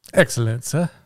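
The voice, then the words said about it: Put-on British accent. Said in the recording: “Nice accents, boys. Good job.”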